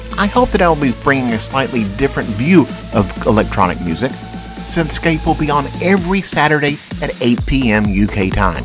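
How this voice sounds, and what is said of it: Southern American accent. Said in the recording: “as you can tell from my accent, I am not from the UK. I live in the southern part of the United States”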